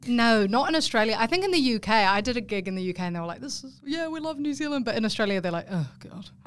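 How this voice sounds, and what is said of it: Strong New Zealand accent. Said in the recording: “I'm actually originally from New Zealand ... It's actually very strong, my accent, at the moment ... your accent's really strong”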